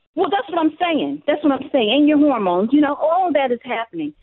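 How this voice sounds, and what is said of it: New York accent. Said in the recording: “I hear a New York accent.”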